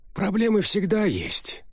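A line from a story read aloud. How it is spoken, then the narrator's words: Sigh. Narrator (Russian): вздохнул Арчер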